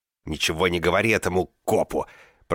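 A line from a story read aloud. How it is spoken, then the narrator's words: Hiss. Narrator (Russian): прошипел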